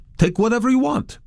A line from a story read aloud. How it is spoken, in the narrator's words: the owners exclaimed joyfully